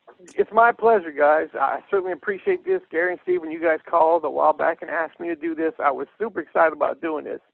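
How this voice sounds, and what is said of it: Deep south Louisiana accent. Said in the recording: “I probably do have a little bit of an accent because I'm from here, deep south Louisiana. So if I sound strange”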